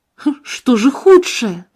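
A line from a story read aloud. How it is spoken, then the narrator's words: Exclaiming. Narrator (Russian): воскликнул я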